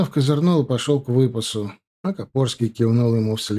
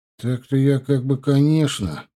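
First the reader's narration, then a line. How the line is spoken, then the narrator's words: Mumbling. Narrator (Russian): промямлил Чанов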